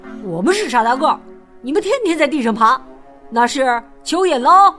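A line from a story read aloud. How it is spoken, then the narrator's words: Loud, annoyed. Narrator (Chinese): 玉米、辣椒和豌豆啊，被惹恼了，大声说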